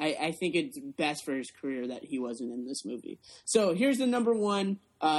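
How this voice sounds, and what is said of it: Usual voice. Nothing is said of it.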